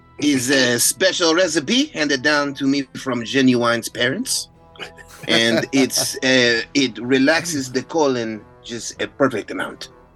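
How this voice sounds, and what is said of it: Slight Latin accent. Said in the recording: “There's a little bit of a Latin accent in there by accident”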